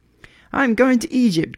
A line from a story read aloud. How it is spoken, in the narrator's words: cried the swallow